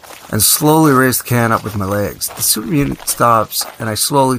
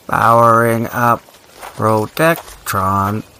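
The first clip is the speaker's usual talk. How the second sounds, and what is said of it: Robot voice. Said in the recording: “my best robot voice.”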